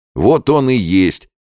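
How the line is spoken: Shouting from behind barrier. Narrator (Russian): кричал из-за барьера полковник Кононов

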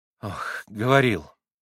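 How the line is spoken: Sigh. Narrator (Russian): вздохнула Грушенька

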